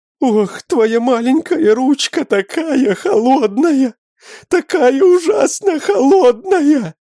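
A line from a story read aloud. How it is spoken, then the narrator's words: Exclaiming woman, loud sobbing. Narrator (Russian): Воскликнула женщина и громко разрыдалась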